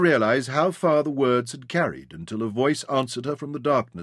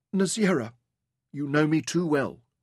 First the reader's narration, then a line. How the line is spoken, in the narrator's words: Rebecca murmured